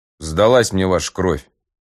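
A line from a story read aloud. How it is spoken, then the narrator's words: Scoffing snort. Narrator (Russian): хмыкнул Пазур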